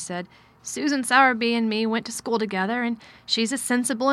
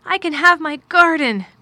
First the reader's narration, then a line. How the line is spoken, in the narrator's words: cried Mary